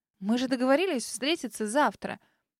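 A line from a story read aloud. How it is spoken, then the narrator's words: Confused mutter. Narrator (Russian): Растерянно пробормотала Дель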